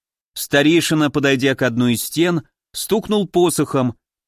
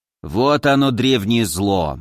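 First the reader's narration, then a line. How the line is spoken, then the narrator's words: Gloomy old man. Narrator (Russian): мрачно сказал старик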